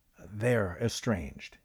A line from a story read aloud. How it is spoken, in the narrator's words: he said quietly